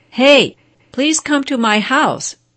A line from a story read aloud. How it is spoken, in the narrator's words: kept shouting out the window